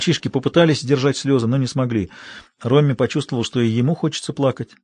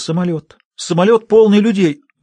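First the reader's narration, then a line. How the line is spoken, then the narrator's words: Bursting into sobs. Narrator (Russian): Она разрыдалась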